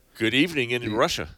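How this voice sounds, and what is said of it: English with a put-on Russian accent. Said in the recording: “I was speaking English with a Russian accent.”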